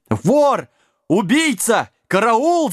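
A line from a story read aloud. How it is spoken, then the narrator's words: Innkeeper yelling. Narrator (Russian): завопил трактирщик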